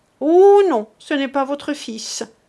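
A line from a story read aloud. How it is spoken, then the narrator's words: Frantic, ringing voice. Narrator (French): reprit Millette hors d'elle-même et d'une voix éclatante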